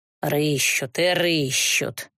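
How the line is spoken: Displeased mutter. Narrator (Russian): недовольно пробормотала торговка

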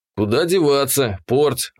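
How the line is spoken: Resigned sigh. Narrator (Russian): обреченно вздохнул я

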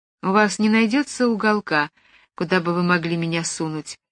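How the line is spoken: Uncertain. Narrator (Russian): неуверенно произнесла Джулия

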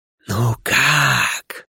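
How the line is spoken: Mocking whisper. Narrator (Russian): услышал я насмешливый шепот в голове

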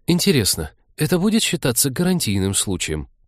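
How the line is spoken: Muttered to break silence. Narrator (Russian): пробормотал Вениамин, просто чтобы не молчать в полутьме

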